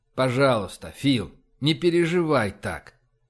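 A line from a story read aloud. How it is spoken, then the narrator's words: Very gentle request. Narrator (Russian): очень мягко попросил он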